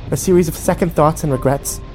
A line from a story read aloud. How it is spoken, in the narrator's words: She snapped